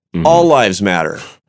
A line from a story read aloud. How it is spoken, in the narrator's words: somebody shouts